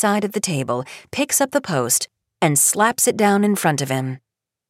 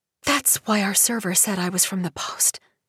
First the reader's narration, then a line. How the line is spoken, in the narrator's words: whispers